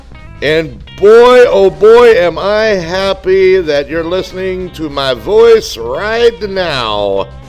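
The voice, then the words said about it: Cheesy imitation of a TV host. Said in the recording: “this really cheesy Ed Sullivan impersonation”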